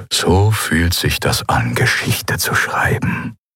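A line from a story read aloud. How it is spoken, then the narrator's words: Murmuring. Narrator (German): murmelte Minister Tagat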